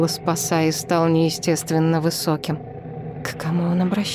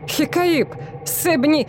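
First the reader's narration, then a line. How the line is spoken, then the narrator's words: Forced laugh, crazed cry. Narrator (Russian): Командир стражи натужно рассмеялся, потом вскрикнул, словно безумный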